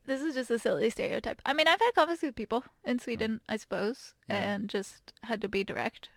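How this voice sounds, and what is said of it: Usual voice. Nothing is said of it.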